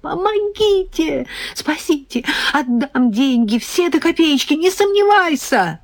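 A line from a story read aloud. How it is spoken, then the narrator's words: Terrified screaming. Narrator (Russian): В полном ужасе, понимая, что кошмар продолжается, я завопила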